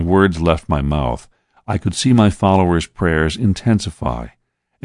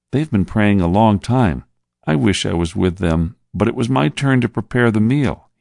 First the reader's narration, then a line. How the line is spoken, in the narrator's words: he said sadly